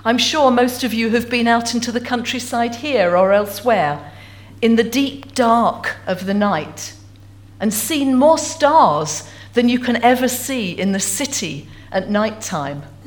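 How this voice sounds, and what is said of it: English Essex accent. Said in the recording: “as you can tell from my accent, I'm not originally from Stornoway... Essex girl... just outside London”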